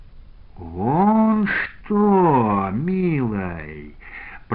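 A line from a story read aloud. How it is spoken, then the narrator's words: Drawling. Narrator (Russian): протянул Евсей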